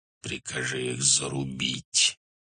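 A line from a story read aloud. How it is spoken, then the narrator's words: Quiet hiss. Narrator (Russian): тихо прошипел Субудай-Богатур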